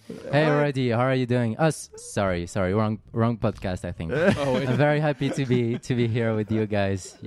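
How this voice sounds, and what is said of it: French accent in English. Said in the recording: “the Frenchman ... Sorry in advance for my accent.”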